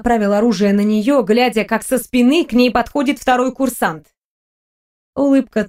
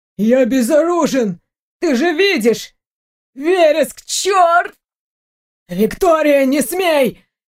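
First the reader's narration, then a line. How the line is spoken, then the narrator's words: Hoarse voice. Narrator (Russian): Хриплый голос Дмитрия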